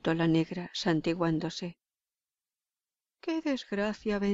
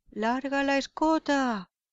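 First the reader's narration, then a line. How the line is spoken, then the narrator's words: Shout. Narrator (Spanish): gritó Pío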